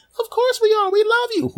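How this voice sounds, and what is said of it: High-pitched distant voice. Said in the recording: “saying a high voice slightly further away from the microphone”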